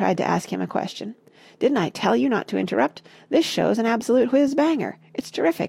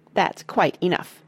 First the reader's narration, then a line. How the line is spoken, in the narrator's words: snapped Grandma Josephine